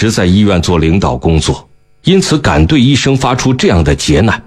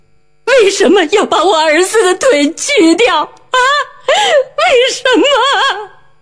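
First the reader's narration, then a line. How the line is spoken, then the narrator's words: Crying out, wailing. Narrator (Chinese): 他对周围的医护人员哭喊着说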